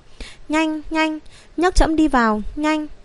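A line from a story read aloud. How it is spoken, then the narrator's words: Trembling, urgent. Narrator (Vietnamese): Thương Vạn Hác dùng thanh âm run rẩy nói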